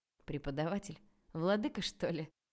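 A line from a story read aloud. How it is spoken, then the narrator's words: Laughing chuckle. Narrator (Russian): хохотнул Илья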